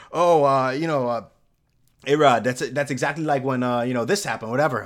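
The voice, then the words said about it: Poorly done put-on accent imitation. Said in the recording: “terrible accent”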